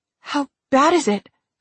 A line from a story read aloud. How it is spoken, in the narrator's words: I choked out